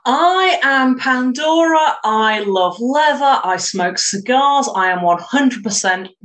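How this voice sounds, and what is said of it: British accent. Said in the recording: “is from the UK ... I love her accent.”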